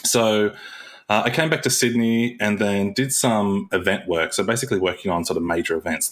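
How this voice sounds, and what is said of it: Somewhat mixed Australian accent. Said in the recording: “as you can probably tell from my accent, which actually is a little bit mixed nowadays”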